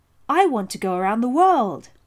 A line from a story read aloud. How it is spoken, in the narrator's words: I blurted out